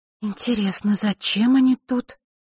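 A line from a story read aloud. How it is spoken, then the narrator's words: Mutter under breath. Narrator (Russian): пробормотала Василиса под нос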